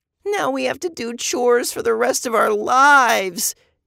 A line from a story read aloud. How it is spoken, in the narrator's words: Eva cried